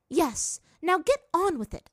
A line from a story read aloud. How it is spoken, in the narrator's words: Azula snapped